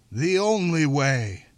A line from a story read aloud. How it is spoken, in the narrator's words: His amplified voice boomed